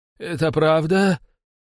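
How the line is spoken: Wheezy rasp. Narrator (Russian): просипел

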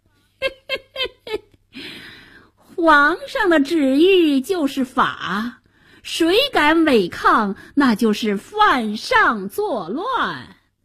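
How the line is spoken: Sinister laugh. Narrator (Chinese): 白脸宰相奸笑着

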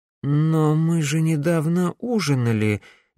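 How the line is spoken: Uncertain. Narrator (Russian): неуверенно произнесла Камилла

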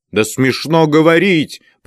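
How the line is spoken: Piercing shout. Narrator (Russian): пронзительно закричал Римский

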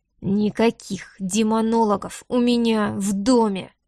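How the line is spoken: Agitated growl, close up. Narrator (Russian): прорычал он прямо ей в лицо, оглушенный стуком собственного сердца

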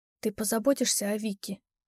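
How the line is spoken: Whispered question. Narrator (Russian): шепотом спросила я

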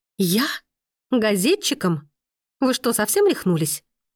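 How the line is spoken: Breathless indignant exclamation. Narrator (Russian): Воскликнула Мия, едва не задохнувшись от такого нелепого обвинения

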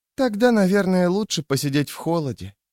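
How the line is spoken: Crestfallen voice. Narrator (Russian): отозвалась Рикки упавшим голосом

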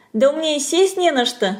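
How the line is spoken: Laughing. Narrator (Russian): смеялась

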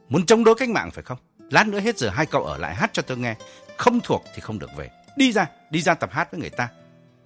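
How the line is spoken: Harsh scolding. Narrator (Vietnamese): Phụng xử lý gay gắt hơn

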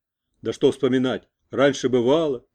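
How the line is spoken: Angry. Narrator (Russian): сердито заговорил он

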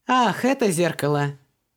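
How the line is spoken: Laughing. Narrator (Russian): рассмеялась Вон

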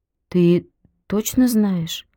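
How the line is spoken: Confused. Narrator (Russian): растерянно проговорила Белка

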